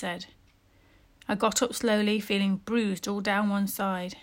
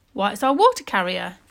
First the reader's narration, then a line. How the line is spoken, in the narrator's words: exclaimed Mr